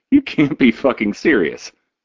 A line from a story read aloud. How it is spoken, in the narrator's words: Jiggs laughs